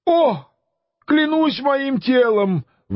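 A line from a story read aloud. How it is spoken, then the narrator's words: Male exclamation. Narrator (Russian): воскликнул Санчо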